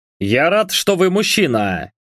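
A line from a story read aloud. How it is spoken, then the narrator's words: Satisfied snort. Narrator (Russian): удовлетворенно хмыкнул техасец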